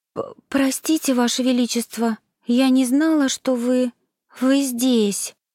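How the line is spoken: Trembling frightened whisper. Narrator (Russian): дрожащим голосом прошептала Лайза, испуганно

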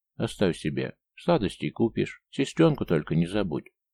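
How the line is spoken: Affectionate. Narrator (Russian): ласково сказал

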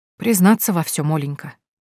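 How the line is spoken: Soft, gentle. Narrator (Russian): мягко сказал Загорский

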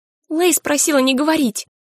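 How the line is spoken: Sighing. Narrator (Russian): Митри вздохнула

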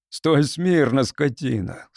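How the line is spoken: Sobbing outburst. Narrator (Russian): с рыданием вырвалось

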